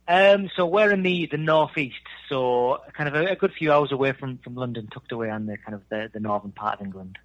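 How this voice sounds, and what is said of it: Northern English accent. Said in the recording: “you can tell from that accent that he's not from Texas. You're from Darlington over in the United Kingdom”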